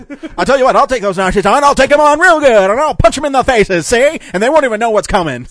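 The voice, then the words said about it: Old-time newsreel announcer voice. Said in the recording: “That was my blend of, like, Cary Grant and something. ... It's Cary Grant meets the announcer for a newsreel.”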